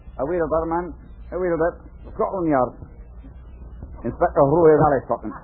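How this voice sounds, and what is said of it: Put-on Scottish accent. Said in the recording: “Why am I talking with this accent? Well, this is Scotland Yard, isn't it?... I won't talk like this anymore. I was just trying to be realistic.”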